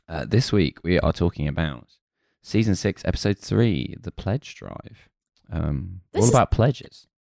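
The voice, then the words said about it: Radio presenter voice. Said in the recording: “This is an interesting radio voice you're doing now ... You sound like you're about to start announcing the chart.”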